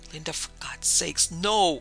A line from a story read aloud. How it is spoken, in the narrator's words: Hoarsely shouting her name